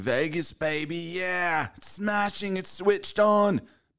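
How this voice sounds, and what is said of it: Put-on British accent. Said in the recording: “the British accent”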